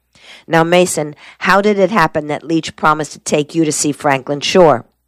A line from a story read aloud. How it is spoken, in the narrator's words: Mason's voice rasped with sudden impatience